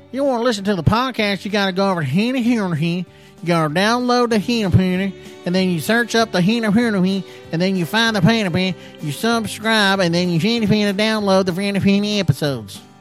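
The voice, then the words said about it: Put-on East Texas accent. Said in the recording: “Let me try it in uh, East Texas accent here.”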